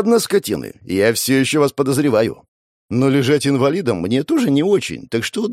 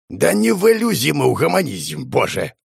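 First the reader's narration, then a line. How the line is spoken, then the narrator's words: Snorting. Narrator (Russian): фыркнул Аргус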